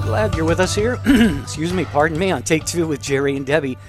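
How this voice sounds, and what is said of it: Froggy, rough voice. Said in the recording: “my voice is a little froggy today”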